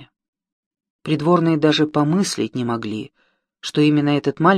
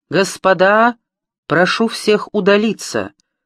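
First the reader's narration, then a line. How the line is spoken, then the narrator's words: Booming shout. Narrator (Russian): зычным голосом вскричал он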